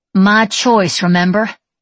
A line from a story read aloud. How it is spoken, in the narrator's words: Babe growled